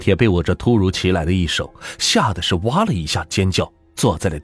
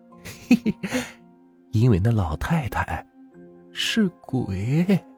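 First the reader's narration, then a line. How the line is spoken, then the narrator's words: Quiet, snickering. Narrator (Chinese): 小声的笑着说道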